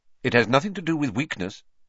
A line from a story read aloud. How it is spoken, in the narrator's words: said Professor Lupin sharply